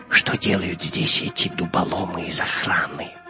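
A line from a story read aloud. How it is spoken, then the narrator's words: Whisper into ear. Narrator (Russian): прошептал Гитлер на ухо своему камердинеру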